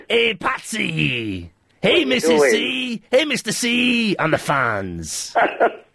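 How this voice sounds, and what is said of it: Impression of the Fonz. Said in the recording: “Can you do an impression of the Fonz for me?”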